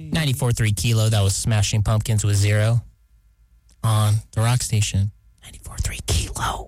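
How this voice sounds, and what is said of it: Whispering radio announcement. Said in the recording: “I don't know why I'm whispering, but sounded cool”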